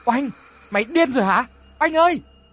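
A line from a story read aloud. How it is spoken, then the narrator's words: Startled shout. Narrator (Vietnamese): nhỏ hoàn hồn hét lên về phía của Oanh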